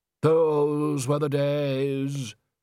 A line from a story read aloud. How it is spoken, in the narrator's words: said Undershaft sadly